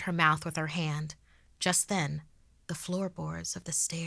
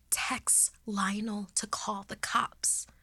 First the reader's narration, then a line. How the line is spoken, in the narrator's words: she haggardly whispered